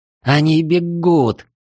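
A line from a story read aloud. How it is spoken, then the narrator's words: Hoarse breathless gasp. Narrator (Russian): хрипло выдохнула Валькирия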